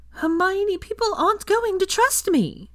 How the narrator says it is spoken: Lavender said with a pleading tone

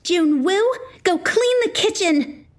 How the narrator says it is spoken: I screamed

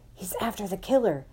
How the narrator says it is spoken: Thwaites whispered to me

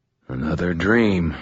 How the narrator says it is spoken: I said, and sighed

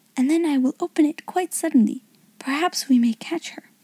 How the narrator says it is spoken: she whispered

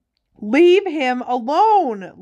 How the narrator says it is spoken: Lily shouted

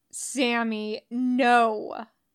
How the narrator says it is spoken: General Carter growled

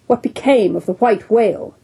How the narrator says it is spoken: cried Ahab, who thus far had been impatiently listening

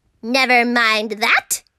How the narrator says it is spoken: snapped Miss Swamp

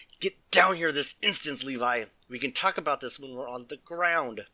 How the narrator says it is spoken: Jordan growled

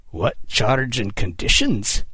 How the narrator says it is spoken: Kidd snarled through gritted teeth

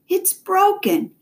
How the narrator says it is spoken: he exclaimed

